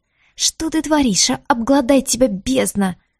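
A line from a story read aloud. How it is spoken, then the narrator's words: Hissing. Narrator (Russian): зашипела Диара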